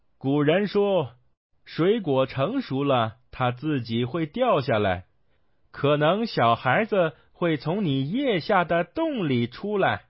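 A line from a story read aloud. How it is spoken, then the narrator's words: Laughing. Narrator (Chinese): 孙悟空笑道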